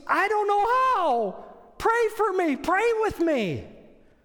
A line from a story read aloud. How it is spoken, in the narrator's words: the man screams